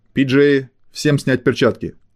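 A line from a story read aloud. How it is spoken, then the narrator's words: Loud barked command. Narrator (Russian): громко рявкнул Пирс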